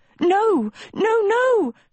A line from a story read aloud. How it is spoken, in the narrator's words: Sophie cried